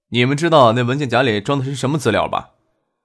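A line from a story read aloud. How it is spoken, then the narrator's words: Faint smile. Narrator (Chinese): 张克嘴角挂着淡淡的浅笑，对杜飞、猛乐说道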